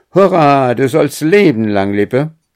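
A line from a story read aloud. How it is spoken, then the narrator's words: Called out. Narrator (German): Er nahm seine weiße Mütze ab und rief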